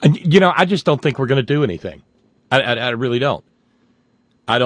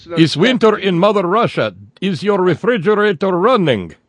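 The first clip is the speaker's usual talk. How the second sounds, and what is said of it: Bad put-on Russian accent. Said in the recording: “doing a bad Russian accent”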